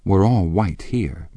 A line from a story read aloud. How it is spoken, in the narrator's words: murmured Jordan